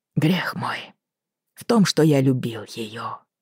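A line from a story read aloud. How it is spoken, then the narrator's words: Barely audible. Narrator (Russian): чуть слышно сказал тот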